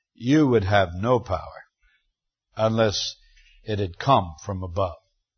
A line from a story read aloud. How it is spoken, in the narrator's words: our Lord, with quiet dignity, simply replies calmly